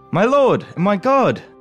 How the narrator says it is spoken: Thomas exclaimed, amazed and joyful

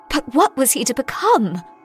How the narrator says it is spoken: I gasped, my mind reeling with disgust

